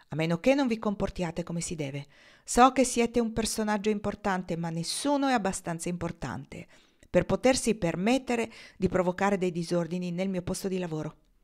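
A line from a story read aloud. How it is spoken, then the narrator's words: Grumbled. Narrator (Italian): brontolò il signor Fenway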